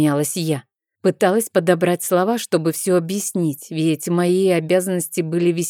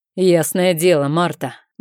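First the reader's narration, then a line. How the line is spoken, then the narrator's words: Rough servant's reply. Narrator (Russian): грубо ответил один из слуг, квадратный рыжий уволень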